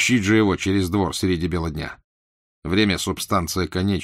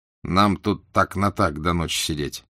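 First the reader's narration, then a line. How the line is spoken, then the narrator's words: Angry mutter through teeth. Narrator (Russian): зло процедил он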